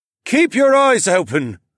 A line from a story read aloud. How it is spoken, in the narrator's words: the old man shouted after us